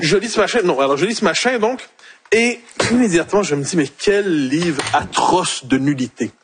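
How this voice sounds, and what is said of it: Quebec French accent. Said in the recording (French): “Il a même retrouvé son accent québécois tellement...”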